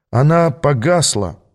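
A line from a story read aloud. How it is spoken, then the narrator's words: Gloomy speaking. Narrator (Russian): уныло проговорил я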